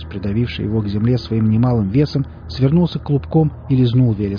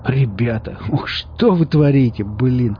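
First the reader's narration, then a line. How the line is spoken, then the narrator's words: Groaning under weight. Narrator (Russian): простонал Велес, придавленный к земле весом 2 милых, немного мутированных собачек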